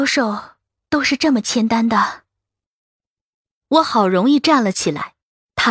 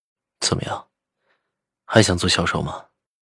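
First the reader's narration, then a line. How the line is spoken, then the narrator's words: Cold question. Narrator (Chinese): 赵以静冷冷问我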